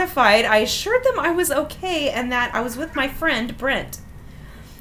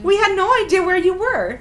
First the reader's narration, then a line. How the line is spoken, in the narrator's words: they squawked furiously